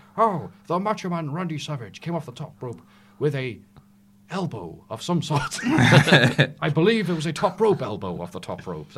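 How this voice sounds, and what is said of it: British impression of Lord Alfred Hayes. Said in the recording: “You're quite good at that impression. ... He's British ... I'm talking about Lord Alfred Hayes”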